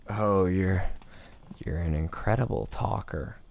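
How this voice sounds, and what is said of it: Imitated Joker-style character voice. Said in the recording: “He's trying to do his Joker voice. Ramsay doesn't sound like that.”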